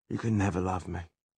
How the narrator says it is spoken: he said flatly

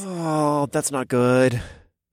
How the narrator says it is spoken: I groaned

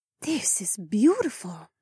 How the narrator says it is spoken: Emma whispered

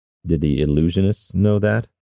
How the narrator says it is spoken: Kairos asked

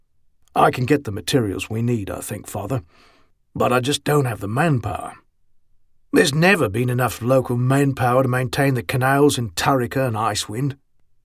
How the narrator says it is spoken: Magruder said with a sigh

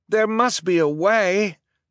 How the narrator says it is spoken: Duncan cried

